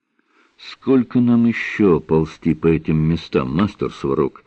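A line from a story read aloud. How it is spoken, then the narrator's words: Quiet question. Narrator (Russian): негромко спросил Рошаль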